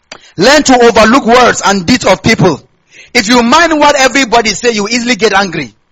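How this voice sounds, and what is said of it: Nigerian Hausa accent. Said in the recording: “I have Hausa accent”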